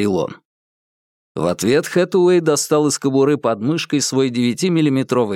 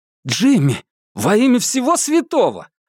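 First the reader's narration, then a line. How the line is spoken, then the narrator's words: Young man exclaiming. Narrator (Russian): воскликнул молодой полицейский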